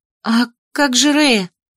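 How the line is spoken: Anxious, agitated question. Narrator (Russian): взволнованно спросила я

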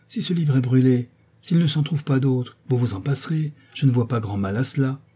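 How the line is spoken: Brisk retort. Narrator (French): répliqua vivement la marquise

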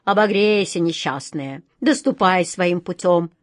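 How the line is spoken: Old man grumbling. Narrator (Russian): проворчал старый адмирал

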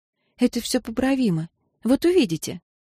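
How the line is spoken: Soft. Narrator (Russian): мягко заметив

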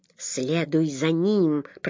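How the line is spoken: Growled. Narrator (Russian): прорычал он

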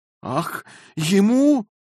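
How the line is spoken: Exclamation. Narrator (Russian): воскликнула Розамонда

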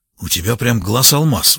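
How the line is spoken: Admiring whisper. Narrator (Russian): восхищенно прошептал лаборант

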